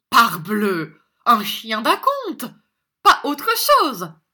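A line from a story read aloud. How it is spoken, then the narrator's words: Sneering reply. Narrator (French): répondit Monsieur Mantalini ricanant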